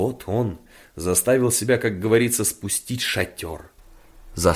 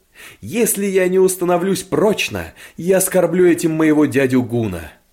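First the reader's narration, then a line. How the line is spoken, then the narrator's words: Emotional exclamation. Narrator (Russian): в приливе чувств воскликнул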